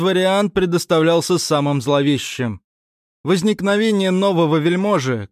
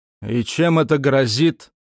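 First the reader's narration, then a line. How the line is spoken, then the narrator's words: Grumbled. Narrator (Russian): пробурчал я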